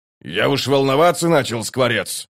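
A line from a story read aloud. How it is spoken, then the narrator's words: Grumbling. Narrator (Russian): проворчал первый кулак Дуджик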